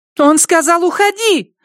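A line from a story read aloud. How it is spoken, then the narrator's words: Squealing. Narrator (Russian): взвизгнула Теллер 5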